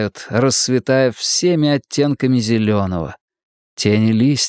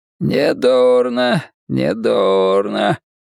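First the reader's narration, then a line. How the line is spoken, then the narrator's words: Hoarse wheeze. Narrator (Russian): просипел он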